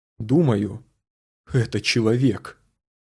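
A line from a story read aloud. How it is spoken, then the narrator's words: Suddenly hoarse voice. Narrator (Russian): Заключил, наконец, ученый внезапно охрипшим голосом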